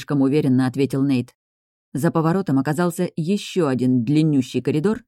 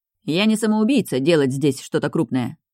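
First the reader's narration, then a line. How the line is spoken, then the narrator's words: Snapping back. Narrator (Russian): огрызнулся Нейтан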